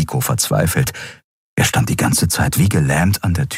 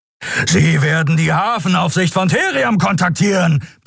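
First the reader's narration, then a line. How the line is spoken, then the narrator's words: Roaring shout. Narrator (German): brüllte Kero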